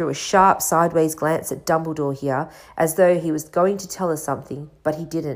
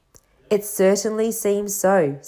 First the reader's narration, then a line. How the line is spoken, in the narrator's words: said Dumbledore